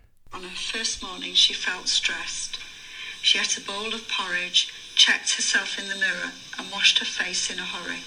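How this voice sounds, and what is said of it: Northern English Lancashire accent. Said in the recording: “It's a Northern English accent. ... It is, yes. ... It's Lancashire.”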